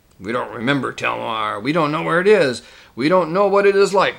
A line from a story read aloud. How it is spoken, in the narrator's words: grumbled the Telmarines